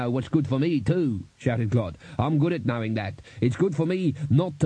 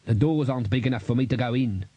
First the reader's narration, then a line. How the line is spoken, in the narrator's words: snapped Clod